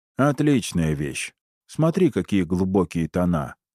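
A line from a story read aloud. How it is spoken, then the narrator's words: Dry curt remark. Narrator (Russian): сухо бросает он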